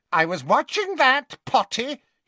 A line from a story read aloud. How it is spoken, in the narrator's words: he told Harry indignantly